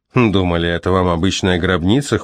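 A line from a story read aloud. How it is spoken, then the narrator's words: Snorting, wry. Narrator (Russian): хмыкнул Джозеф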